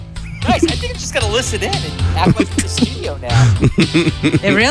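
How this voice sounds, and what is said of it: Usual voice. Nothing is said of it.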